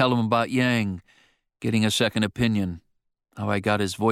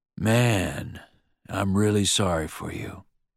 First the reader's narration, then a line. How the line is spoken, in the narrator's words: George says, his voice quieter than I've ever heard it